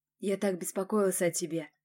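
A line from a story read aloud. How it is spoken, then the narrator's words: Whisper. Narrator (Russian): прошептал Власов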